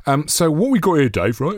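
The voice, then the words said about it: Generic TV chef voice. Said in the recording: “Is that your James Martin impression? ... no, I don't know who it is. It's just a sort of chef, you know, like a generic chef.”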